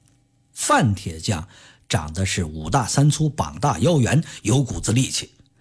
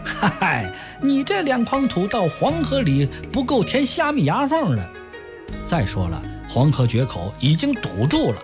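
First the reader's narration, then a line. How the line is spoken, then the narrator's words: Laughing passerby. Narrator (Chinese): 路人笑了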